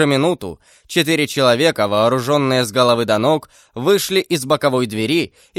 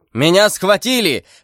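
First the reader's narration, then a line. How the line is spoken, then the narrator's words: Shouting at full strength. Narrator (Russian): закричал Атос изо всей силы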